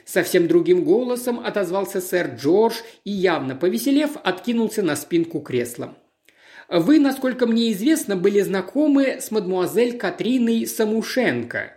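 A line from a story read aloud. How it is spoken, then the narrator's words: Plain. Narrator (Russian): спросил Пуаро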